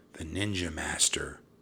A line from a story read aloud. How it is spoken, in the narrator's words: Jack whispered back